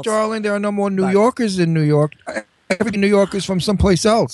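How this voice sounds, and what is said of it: Brooklyn New York accent. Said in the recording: “you have such a New York accent, such a Brooklyn accent”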